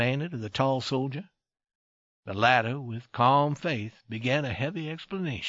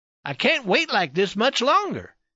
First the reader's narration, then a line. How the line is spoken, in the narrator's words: he cried